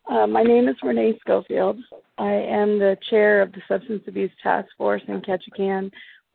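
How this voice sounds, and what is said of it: Unwell, affected voice. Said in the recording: “I'll apologize for my voice. I'm homesick today”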